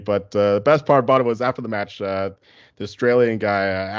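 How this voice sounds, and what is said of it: Usual voice. Nothing is said of it.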